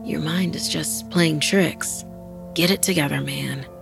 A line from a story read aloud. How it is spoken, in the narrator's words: he whispered to himself sleepily